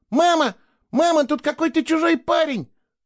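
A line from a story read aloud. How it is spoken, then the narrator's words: Shouted in a ringing voice. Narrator (Russian): прокричала она звонким голосом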